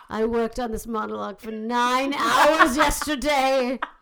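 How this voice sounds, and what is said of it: Put-on British accent. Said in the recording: “the British accent. That makes me cleverer.”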